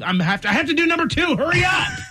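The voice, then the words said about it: Yelling. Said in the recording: “I'm yelling.”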